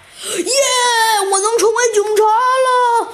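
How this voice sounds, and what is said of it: Loud excited shout. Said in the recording (Chinese): “你你你你你你小声点儿”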